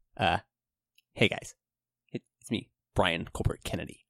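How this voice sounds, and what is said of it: Imitates another person's voice. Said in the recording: “do your best Brian impression.”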